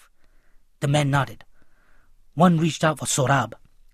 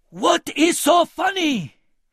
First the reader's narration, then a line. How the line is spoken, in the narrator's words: He bellowed with each blow